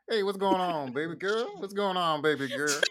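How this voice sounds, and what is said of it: Old man grandpa voice. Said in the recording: “That's like a grandpa voice... Not my grandpa, but somebody's grandpa.”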